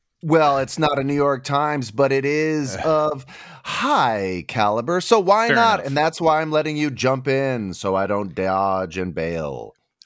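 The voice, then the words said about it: Serious announcer-style news voice. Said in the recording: “this Don Pardo voice that you're committing to for the entire episode ... It's a serious news voice ... That's my news voice”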